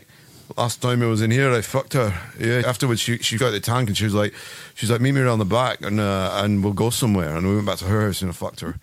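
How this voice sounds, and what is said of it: Put-on posh Scottish Dundee accent. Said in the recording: “that noise you just made, it's really hard to do. ... Was a posh Scottish. ... The Dundee accent.”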